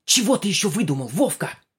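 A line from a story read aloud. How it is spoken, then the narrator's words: Hissing again. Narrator (Russian): Снова зашипела Галина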